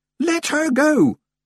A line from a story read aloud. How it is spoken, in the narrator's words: she yelled